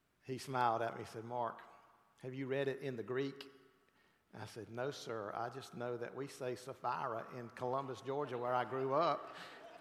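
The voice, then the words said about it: South Georgia twang. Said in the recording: “In my South Georgia twang.”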